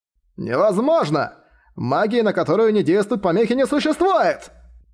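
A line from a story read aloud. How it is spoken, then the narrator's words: Impatient shout. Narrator (Russian): Нетерпеливо выкрикнул лидер гуманистов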